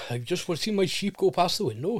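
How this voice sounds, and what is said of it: Put-on Welsh accent. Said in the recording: “I do it in a Welsh accent”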